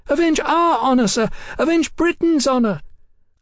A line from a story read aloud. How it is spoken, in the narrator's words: Sybil shouted at him shrilly